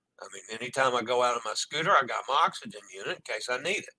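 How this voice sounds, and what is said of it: Voice fading, worn out. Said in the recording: “My voice is also going.”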